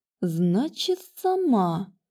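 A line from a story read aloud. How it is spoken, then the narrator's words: Slow repetition. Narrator (Russian): медленно повторила ведьма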